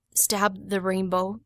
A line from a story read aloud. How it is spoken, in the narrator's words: mumbled